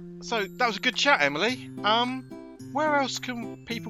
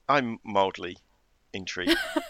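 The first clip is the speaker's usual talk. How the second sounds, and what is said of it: Flat deadpan poker-faced delivery. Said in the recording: “my poker podcast voice”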